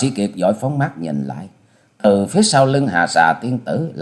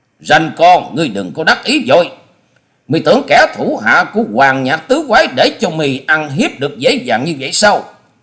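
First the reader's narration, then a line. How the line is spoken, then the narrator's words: Loud bellowing shout. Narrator (Vietnamese): một giọng sống lên như trâu kêu quát to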